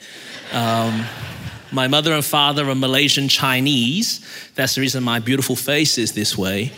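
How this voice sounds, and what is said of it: Australian accent. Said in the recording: “I was born in Melbourne, Australia. And that's the reason my voice is this way.”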